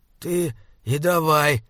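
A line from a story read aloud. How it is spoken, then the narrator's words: Hoarse wheeze. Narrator (Russian): прохрипел он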